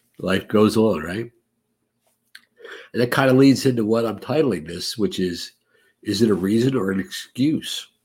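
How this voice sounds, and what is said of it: Congested, nasal voice. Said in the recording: “The nose is still congested. ... I sound terrible.”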